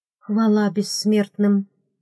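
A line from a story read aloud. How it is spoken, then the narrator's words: Breathed out. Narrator (Russian): выдохнула я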